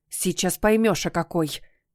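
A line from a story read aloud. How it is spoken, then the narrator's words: Growling. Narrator (Russian): прорычала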